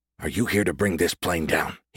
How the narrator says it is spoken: He whispered

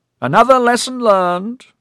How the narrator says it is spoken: Melzar boomed

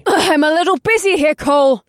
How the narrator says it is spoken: she yelled

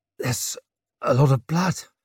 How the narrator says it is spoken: he croaked

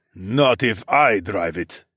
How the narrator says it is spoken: Quan growled

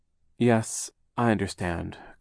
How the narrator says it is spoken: Klaus said, sighing

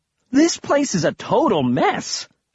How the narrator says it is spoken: I exclaimed

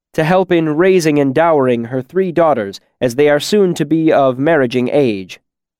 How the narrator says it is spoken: Bast said loudly across the room

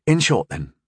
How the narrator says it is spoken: Rondel said quickly

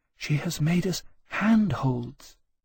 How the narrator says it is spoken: Catherine said softly

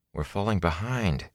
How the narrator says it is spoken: he murmured

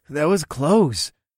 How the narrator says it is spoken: Kaelon gasped

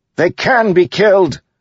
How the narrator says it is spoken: one of the soldiers yelled nearby

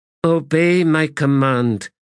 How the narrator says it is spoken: said the adjunct in a weary tone

